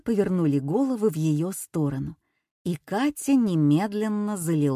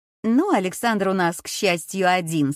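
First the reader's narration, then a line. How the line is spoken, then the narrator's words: Rather sharp tone. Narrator (Russian): сказала Женя, как показалось Кате довольно резко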